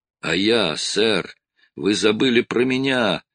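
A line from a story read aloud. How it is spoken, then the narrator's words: Sailor's moan. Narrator (Russian): простонал один из матросов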